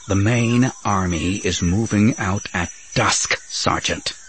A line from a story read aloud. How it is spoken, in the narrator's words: he said through tightly clenched teeth